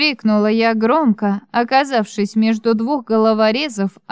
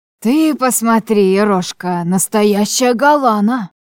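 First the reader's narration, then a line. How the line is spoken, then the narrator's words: Breathed into face. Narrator (Russian): выдохнул мне в лицо третий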